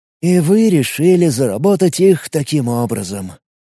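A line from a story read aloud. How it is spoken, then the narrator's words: Weary drawl. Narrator (Russian): устало протянул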